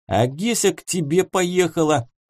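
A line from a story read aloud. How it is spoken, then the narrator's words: Squeaked. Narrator (Russian): пискнул Семен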